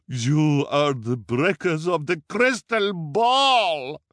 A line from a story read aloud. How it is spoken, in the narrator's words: she bellowed